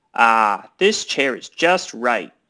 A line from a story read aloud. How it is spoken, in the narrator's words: she said